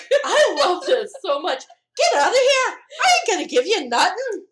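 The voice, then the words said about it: Bad put-on Irish accent. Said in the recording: “Sorry for the bad Irish accent”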